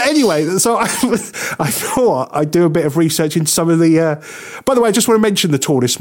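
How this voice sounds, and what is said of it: Usual voice. Nothing is said of it.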